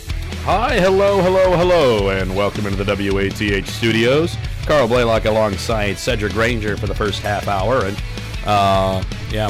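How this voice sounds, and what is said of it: Hoarse, strained voice. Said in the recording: “my voice is shot. ... Yeah, I can hear it in your voice.”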